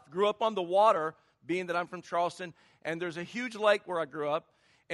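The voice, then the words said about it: Slight Southern US accent. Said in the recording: “Maybe you can tell with the little accent that I'm not from California. But I'm from the South.”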